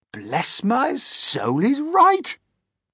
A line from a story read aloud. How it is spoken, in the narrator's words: the old green grasshopper exclaimed